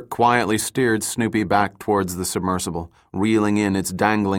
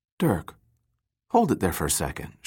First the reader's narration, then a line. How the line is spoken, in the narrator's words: said quietly, focusing on the monitor